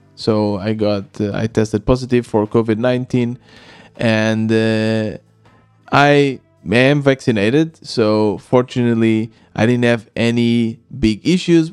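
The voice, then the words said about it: Voice affected by illness. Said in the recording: “I apologize for how my voice sounds. ... I got uh, COVID ... I still had a fever and felt a little bit weak”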